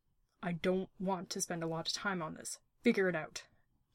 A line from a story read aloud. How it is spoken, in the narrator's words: Jack snapped, stalking off in an angry huff